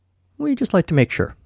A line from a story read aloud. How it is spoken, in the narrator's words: Kyle said